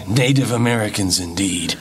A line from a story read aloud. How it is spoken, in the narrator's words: replied the sheriff gruffly, an angry light in his eyes